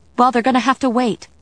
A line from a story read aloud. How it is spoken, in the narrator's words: I snapped